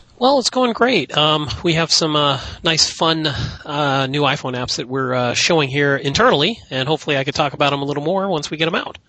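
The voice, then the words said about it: Hoarse voice. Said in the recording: “You sound a little hoarse.”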